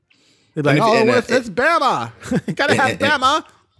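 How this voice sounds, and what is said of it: Imitates a sportscaster's voice. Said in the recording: “What is that accent? ... That's my Keith Jackson. ... I respect your impression. That was nice. I give it a solid like 7 out of 10.”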